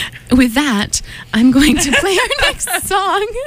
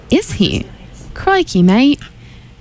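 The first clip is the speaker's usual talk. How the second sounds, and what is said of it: Not very good Australian accent. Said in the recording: “I can't do a very good Australian impression.”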